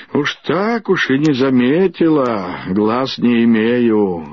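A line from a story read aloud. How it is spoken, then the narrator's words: Grumbling. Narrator (Russian): ворчала Виталья Гордеевна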